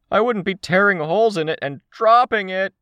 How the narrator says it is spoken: the teenager raised his voice

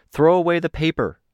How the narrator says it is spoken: called out

